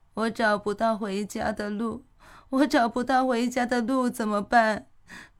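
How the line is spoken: Soft crying, lost. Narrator (Chinese): 找不到家的古欣欣轻声地哭泣着

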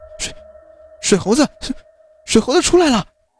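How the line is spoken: Terrified screaming. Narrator (Chinese): 因为小虎胆子小，被吓得哇哇大叫，说

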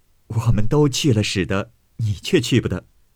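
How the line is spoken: Laughing. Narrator (Chinese): 袭人笑道

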